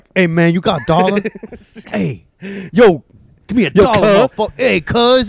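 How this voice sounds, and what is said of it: Imitates a stereotyped Black man's voice. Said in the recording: “do an impression of a black person”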